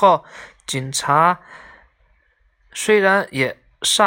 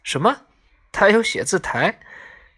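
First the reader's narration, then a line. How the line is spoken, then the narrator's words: Laughing. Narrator (Chinese): 警察笑了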